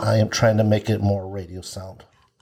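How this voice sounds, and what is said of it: Deliberately deep voice. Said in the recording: “Wow, what a deep voice.”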